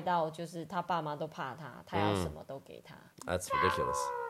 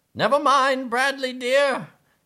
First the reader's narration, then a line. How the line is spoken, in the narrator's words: cried Mr